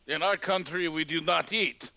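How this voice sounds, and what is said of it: Put-on Russian-sounding accent. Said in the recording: “Why am I kind of Russian?”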